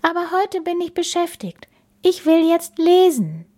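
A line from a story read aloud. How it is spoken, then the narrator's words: Sighed. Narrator (German): seufzte Bella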